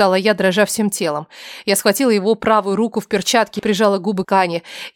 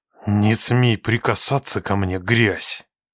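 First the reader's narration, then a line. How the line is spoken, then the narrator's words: Hateful, through clenched teeth. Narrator (Russian): Процедил он, и каждое слово дышало ненавистью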